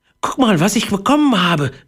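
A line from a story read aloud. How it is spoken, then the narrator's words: Excited call. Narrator (German): rief er aufgeregt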